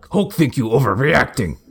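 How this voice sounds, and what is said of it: Stern Hulk character voice. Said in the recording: “a stern Hulk ... My Hulk impression is very close to my Bigfoot impression.”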